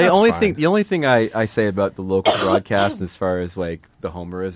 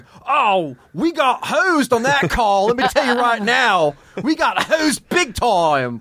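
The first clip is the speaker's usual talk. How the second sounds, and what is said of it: Invented regional accent, Muppet-like. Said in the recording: “Is that a Philly? ... invented an accent ... You sounded like a Muppet, kind of.”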